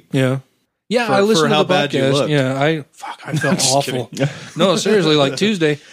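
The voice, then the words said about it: Rough voice cutting in and out. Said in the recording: “my voice is kind of cutting in and out a little bit and still sounds a little rough”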